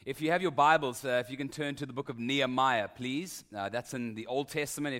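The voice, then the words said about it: Speaks with a noticeable accent. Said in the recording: “so you can get used to my accent, and hopefully that will happen quickly”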